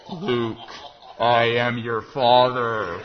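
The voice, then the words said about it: Darth Vader impression. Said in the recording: “my best Darth Vader impression”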